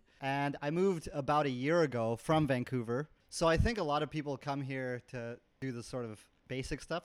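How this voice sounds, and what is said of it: Canadian accent. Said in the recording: “I'm from Vancouver, Canada, as you can probably tell by the accent”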